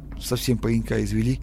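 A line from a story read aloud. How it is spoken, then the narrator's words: Muttered. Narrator (Russian): пробормотал полицейский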